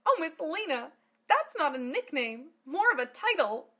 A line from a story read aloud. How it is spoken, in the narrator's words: Amelia cried